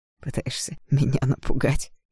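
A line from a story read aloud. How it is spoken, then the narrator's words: Hoarse laugh. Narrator (Russian): хрипло рассмеялся Игнат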